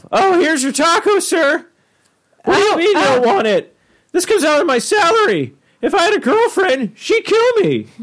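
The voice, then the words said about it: Squeaky teenage boy voice. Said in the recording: “Squeaky voice teen ... the squeaky voice”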